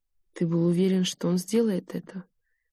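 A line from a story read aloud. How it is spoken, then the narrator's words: Flat, colorless voice. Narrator (Russian): каким-то бесцветным голосом спросила я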